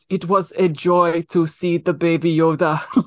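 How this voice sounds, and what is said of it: Imitates a thick German accent. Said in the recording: “that thick German accent”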